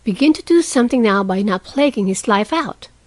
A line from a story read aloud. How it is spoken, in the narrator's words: said Meg sharply